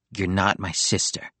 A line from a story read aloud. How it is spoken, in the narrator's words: he said bitterly